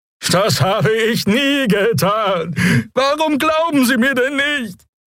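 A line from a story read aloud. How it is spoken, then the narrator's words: Whimpering with plaintive horn. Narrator (German): Der Draxyl brachte einen winselnden Laut hervor, begleitet von einem klagenden Tuten seines Horns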